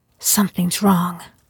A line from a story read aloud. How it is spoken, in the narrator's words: whispered